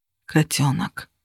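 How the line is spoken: Whisper. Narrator (Russian): прошептал он

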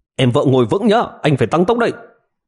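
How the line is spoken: Loud shout. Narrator (Vietnamese): Triệu Ngọc hét lớn một tiếng

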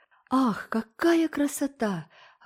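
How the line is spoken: Three girls in chorus. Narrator (Russian): воскликнули три девочки хором

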